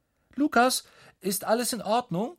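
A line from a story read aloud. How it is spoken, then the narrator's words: Mother calling from afar. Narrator (German): ruft Mama aus dem Badezimmer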